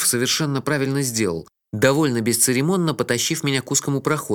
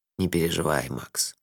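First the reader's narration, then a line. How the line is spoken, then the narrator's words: Soft. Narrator (Russian): мягко сказал Лонли Локли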